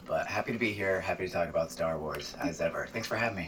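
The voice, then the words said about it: Hoarse, froggy voice. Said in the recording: “I apologize for sounding like I have a frog in my throat, but I'm recovering from a cold.”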